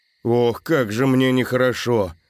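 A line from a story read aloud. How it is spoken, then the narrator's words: Groaning. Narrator (Russian): простонал Антон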